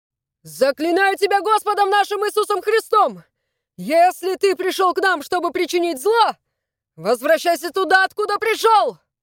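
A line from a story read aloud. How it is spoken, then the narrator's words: Shouted. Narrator (Russian): Он крикнул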